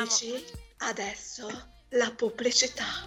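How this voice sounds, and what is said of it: Sultry announcer voice. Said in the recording (Italian): “con una voce da annunciatrice un po' porca”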